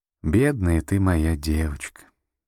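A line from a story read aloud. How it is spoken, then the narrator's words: Sighing grandmother. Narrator (Russian): вздохнула бабушка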